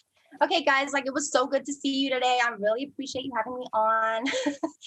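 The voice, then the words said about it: Put-on American accent. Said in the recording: “give us your best American accent.”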